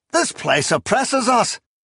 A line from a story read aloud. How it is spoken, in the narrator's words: he cried